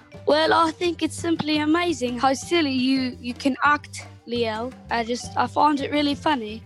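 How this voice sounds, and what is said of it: Put-on British accent. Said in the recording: “you do a great British accent ... say something to us in your fantastic British accent”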